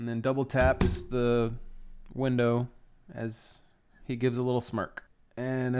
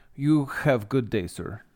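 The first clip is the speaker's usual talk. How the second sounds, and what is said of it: Thick put-on Russian accent. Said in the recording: “with a pretty thick Russian accent”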